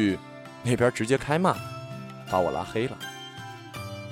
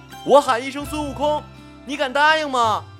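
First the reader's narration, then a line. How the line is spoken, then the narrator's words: Sudden loud shout. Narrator (Chinese): 我忽然大喊一句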